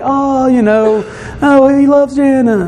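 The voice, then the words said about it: Impression of gushing family members. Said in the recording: “my best impression of Maddie and Macy and Vera”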